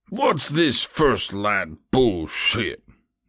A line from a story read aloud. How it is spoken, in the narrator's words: Mosley bellowed, face growing red